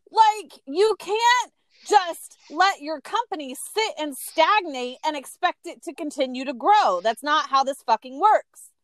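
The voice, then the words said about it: Screaming, ranting loudly. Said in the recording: “sorry for screaming”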